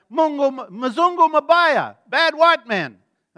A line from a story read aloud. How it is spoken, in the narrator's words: someone yells out